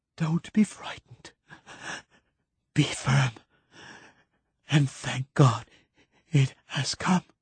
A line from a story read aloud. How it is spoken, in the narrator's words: gasped Keats